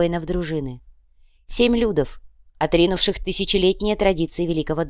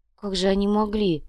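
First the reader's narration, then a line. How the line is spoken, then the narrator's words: Sad sigh. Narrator (Russian): грустно вздохнула Верея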